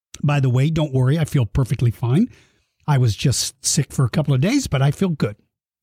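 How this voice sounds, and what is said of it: Slightly rough, hoarse voice. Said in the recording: “I am just getting over COVID... my voice is still a little bit rough. I have to stop and take a drink of water every now and then.”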